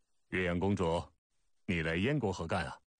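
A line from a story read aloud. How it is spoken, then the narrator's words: Puzzled question. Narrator (Chinese): 问得好稀奇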